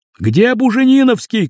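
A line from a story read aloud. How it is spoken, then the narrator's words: Shouting. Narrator (Russian): кричал кто-то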